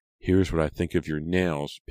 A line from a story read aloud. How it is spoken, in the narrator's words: Pam exclaimed